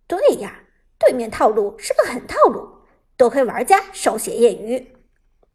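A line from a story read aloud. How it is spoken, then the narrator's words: Laughing. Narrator (Chinese): 老 K 笑着说道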